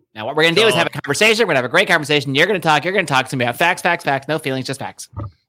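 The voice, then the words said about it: Ben Shapiro impression. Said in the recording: “That's my Ben Shapiro. I told you, I've been working on my impressions. They're a work in progress.”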